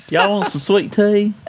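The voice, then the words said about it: Exaggerated Southern accent like Gomer Pyle. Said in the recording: “You sound like Gomer Pyle.”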